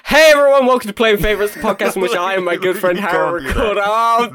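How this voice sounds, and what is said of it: Overly energetic kids' TV presenter voice. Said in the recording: “That's too much energy. That's too much. ... You sound like a kid's Saturday morning TV presenter.”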